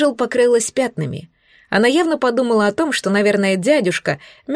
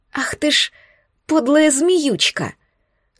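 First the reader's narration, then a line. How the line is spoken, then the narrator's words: Hiss. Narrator (Russian): Зашипела на меня Анжел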